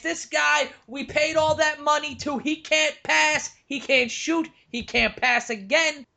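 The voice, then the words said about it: Bad Mike Francesa impression. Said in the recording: “that was probably the worst Francesa impression ever.”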